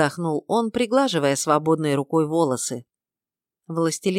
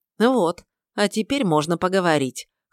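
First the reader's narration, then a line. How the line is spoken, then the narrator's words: Snort. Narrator (Russian): хмыкнул я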